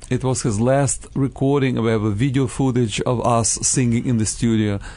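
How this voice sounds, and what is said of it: European accent, non-native English. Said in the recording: “my pidgin English ... my beautiful, charming European accent”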